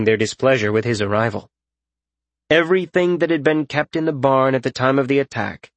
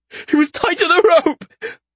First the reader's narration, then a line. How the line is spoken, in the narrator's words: Brant said through choked sobs